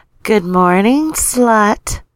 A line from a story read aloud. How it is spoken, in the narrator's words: would purr in his ears